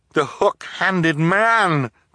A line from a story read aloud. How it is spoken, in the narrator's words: Klaus cried